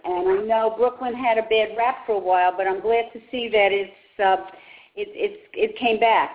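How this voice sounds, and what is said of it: Brooklyn accent. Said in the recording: “I still have my Brooklyn accent. Everyone tells me that.”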